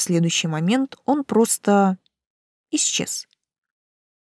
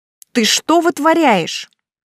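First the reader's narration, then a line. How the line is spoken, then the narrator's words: Angry question. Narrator (Russian): сердито спросила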